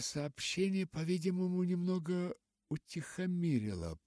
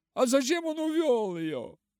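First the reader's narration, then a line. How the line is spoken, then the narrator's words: Shouting. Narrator (Russian): кричал тот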